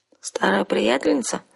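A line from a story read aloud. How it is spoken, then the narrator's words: Sleepy question. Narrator (Russian): сонно спросила я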